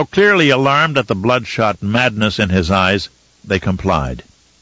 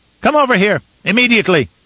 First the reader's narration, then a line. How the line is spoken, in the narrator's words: he shouted